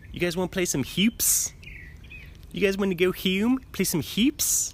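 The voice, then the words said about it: Put-on Maryland accent. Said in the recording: “That's my Maryland accent... That's actually a pretty good Maryland accent right there.”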